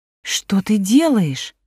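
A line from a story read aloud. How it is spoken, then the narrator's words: Surprised exclamation. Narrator (Russian): воскликнула Элина Веленовна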